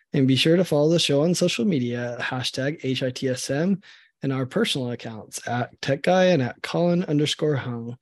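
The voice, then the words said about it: Sick, rough-sounding voice. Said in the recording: “it's felt like my home was a hospital these last 5 days. So that's why my voice is terrible.”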